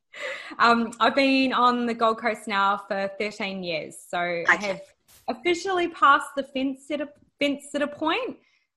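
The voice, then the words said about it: Slight New Zealand accent. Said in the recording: “the hint of a New Zealand accent? ... Just a little.”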